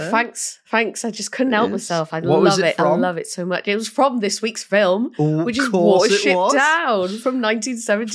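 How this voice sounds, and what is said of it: Raspy, phlegmy voice from a cold. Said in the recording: “I've got a little bit of a cold ... in case instead of sounding raspy and sexy, I just sound gross and full of phlegm ... it is phlegm working its way through her chest”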